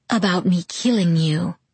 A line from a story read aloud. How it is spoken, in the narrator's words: he answered in a seductive purr